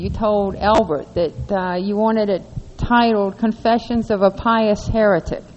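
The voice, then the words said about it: Southern American accent. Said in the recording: “Don't you have a wonderful southern accent? It's great.”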